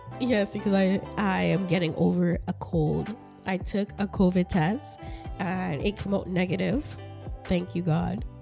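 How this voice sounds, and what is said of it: Raspy, congested voice. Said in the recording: “my voice is raspy ... I love the raspy voice ... my nose is stuffed up”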